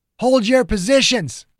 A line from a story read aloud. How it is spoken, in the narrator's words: Ogden shouted